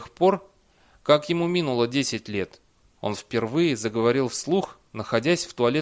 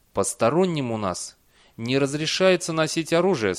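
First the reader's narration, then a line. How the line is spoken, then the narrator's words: Calm. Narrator (Russian): спокойно ответил эр Дэниел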